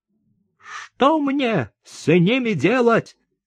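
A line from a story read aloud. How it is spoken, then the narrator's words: Shouting. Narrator (Russian): кричал он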